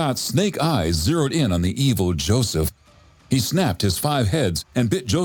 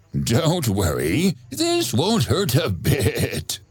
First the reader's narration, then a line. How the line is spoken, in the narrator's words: Joseph said with an evil laugh